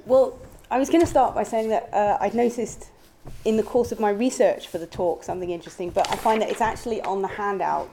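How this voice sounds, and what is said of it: Strained voice. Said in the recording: “My voice is a bit under strain today.”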